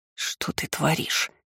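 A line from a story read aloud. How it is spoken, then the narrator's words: Hissed quietly by relative. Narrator (Russian): прошипела родственница, пользуясь тем, что мы чуть поотстали от процессии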